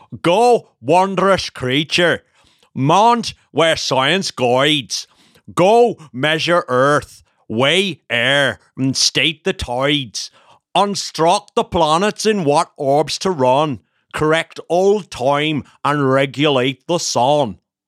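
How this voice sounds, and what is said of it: Put-on Belfast accent. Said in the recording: “Belfast accent impression. Very good”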